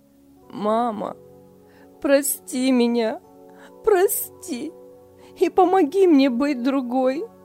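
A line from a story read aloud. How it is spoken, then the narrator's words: Sobbing. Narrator (Russian): рыдала Лиля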